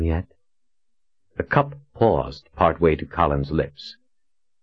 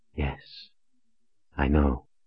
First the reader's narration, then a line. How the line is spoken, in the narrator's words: Shota whispered